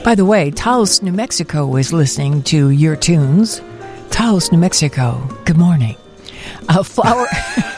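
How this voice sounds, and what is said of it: Smooth jazz radio voice. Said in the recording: “do your smooth jazz voice”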